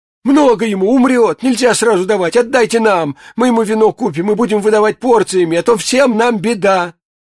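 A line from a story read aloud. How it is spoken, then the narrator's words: Old women suddenly shouting. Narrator (Russian): Две бабки закричали вдруг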